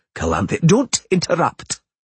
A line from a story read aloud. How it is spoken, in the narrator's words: said sharply